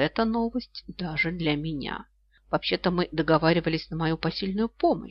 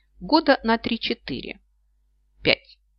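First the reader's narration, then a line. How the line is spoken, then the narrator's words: Thoughtful. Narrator (Russian): задумчиво произнесла она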